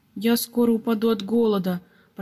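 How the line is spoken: Grumbling. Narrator (Russian): проворчал Пепс

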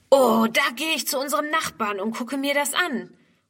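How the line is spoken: Call. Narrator (German): ruft Ernst

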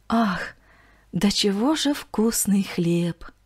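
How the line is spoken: Sorrowful sigh, kind woman. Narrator (Russian): Горестно вздохнула сердобольная женщина

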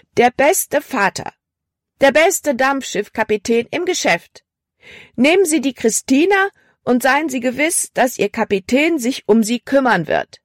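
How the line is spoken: Loud calling out. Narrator (German): rief sie laut

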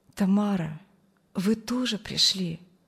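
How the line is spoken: Plain. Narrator (Russian): спросил он тогда

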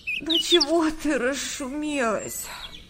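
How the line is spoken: Grumbling. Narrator (Russian): проворчала Света

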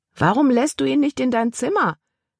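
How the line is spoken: Calling after her. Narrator (German): rief Caleb ihr nach

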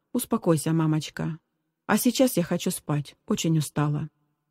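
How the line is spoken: Soft. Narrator (Russian): мягко сказала

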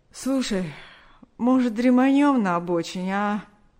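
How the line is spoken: Tired, yawning suggestion. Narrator (Russian): Борис устало зевнул и предложил

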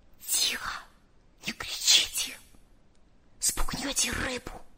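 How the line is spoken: Barely audible whisper. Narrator (Russian): еле слышно прошептал

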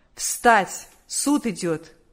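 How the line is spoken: Commanding voice. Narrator (Russian): судебный полицейский повелительным голосом сказал

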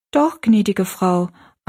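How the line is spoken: Plain answer. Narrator (German): antwortete Rosalie

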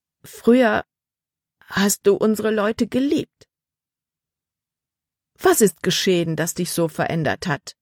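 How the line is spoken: Sighing. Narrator (German): Herr Weaver seufzte

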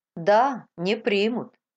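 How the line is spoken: Plain. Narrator (Russian): ответил Кристи

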